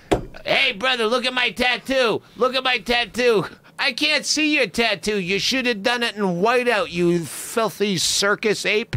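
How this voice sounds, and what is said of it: Impression of George. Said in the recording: “doing a great impression ... It sounds just like George.”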